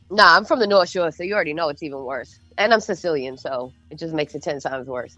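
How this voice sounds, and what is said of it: Boston accent. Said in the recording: “you 1,000% sound like you're from Boston ... I'll never lose my accent ... you're not shaking that”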